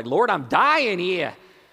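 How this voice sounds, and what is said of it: Put-on northern accent. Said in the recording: “I asked that in a northern accent”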